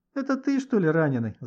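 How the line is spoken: Laughing. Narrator (Russian): засмеялся Гошка

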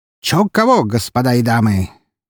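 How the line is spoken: Loud and spirited announcement. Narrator (Russian): громко и с задором оповестил Константин Броницкий

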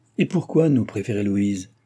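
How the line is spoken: Sour. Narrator (French): demanda d'un ton aigre Madame Sophie

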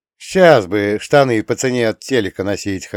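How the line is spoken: Chuckle. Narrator (Russian): хохотнул я

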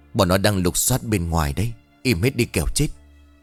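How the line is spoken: Soft whisper. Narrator (Vietnamese): Thái xuyền lên một tiếng rồi khẽ thì thào

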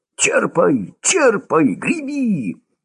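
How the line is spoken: Shrieking. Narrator (Russian): Уже визжал Лёшка

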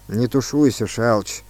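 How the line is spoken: Gloomy. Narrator (Russian): сказал Сысоев мрачно

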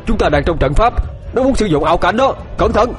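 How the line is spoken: Loud shout. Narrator (Vietnamese): Ông ta hét lớn

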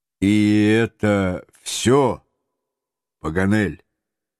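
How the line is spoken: Calm steady question. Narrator (Russian): майор своим неизменно спокойным голосом все же спросил

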